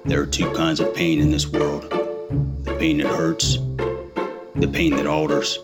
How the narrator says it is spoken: Denzel Washingtoast solemnly replied

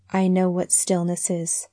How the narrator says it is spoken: she said in a queer, monotonous voice

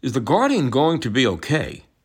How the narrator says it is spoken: Scott asks in a worried voice

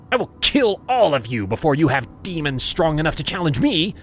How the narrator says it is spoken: barked

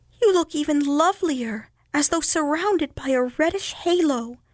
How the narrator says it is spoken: cried one yellow dahlia in surprise

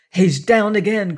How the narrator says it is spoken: cried Bunch

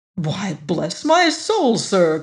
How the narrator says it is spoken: cried the manager with unnecessary vehemence

